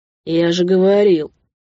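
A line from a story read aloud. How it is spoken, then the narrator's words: Grumbling. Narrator (Russian): заворчал водитель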